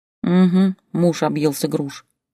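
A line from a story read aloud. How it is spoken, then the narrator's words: Grumbling under breath. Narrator (Russian): проворчала себе под нос Олеся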